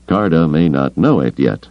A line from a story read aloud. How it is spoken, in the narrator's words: Lando said dryly